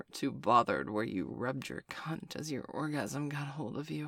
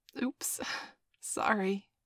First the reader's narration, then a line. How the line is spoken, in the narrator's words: I giggled